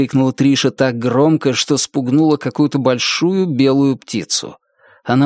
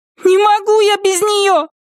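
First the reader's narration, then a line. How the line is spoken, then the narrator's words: Furious shout. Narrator (Russian): Яростно закричала Триша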